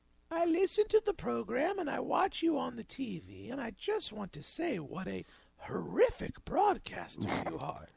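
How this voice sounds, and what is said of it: Impression of nice-sounding older woman caller. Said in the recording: “how much does he sound like the old woman with the goiter in Seinfeld? ... trying to do my best impression of the woman earlier who called ... she was like the evil Edith ... Sounded nice, but was saying horrible things”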